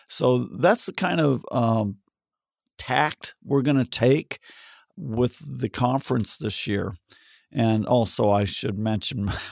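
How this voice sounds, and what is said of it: Slightly off, sick-sounding voice. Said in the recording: “my voice is a little off because I've been sick the last week”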